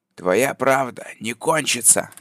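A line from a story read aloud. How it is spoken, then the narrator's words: Loud answer. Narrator (Russian): громко ответил Грейвс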